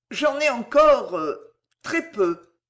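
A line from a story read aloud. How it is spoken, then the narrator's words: Stammering. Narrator (French): balbutia Marco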